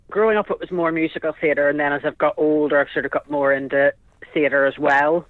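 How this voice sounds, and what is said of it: Northern Irish accent. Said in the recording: “originally from Northern Ireland, by the sound of your accent ... Yes, from Bangor, Northern Ireland.”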